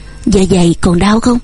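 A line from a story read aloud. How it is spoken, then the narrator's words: Gentle question. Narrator (Vietnamese): Chàng dịu dàng hỏi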